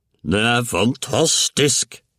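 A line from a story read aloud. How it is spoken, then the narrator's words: Excited shouting. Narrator (Norwegian): ropte herr Cranky og hoppet rundt og rundt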